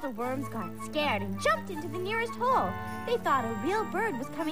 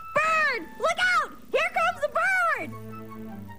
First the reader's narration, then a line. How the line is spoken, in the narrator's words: Wendy thought it would be funny to yell